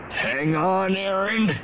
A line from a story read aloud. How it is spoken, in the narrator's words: Zirid said, his voice muffled by the mask